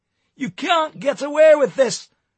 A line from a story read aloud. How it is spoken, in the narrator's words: he hollered